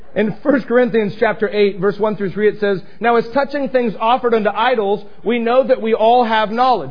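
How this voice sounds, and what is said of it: Speaker's own non-native accent. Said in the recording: “Sorry for my accents.”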